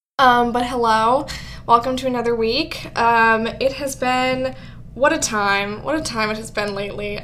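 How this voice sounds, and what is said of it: Scratchy voice. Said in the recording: “My throat has been really scratchy for the last few days ... if my voice sounds a little bit scratchy, a little bit like that”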